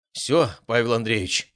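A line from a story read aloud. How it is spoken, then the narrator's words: Sighing. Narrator (Russian): вздохнул он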